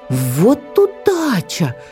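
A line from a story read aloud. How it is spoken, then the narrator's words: Eaglet's exclamation. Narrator (Russian): воскликнул беркутенок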